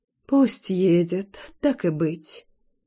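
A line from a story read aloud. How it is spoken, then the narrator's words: Sighing. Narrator (Russian): вздохнула Лина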